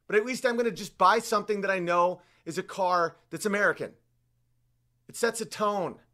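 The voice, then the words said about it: Yelling, loud agitated speech. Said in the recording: “I'm yelling. Why am I yelling? I'll stop yelling.”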